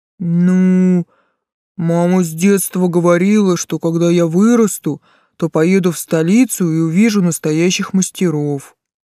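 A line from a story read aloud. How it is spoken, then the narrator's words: Booming drone. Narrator (Russian): прогудел тот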